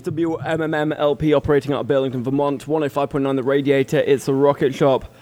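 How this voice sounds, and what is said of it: Distinctive natural accent. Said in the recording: “So great accent.”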